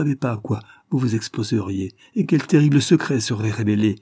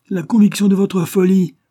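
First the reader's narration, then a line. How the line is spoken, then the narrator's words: Exclaimed. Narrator (French): s'écria M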